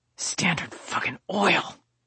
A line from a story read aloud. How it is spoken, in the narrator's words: I hissed